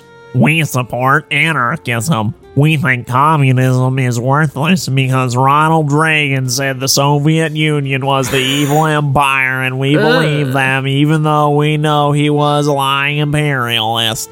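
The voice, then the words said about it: Whiny, stupid-sounding character voice. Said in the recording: “said stupidly in a whiny, stupid voice”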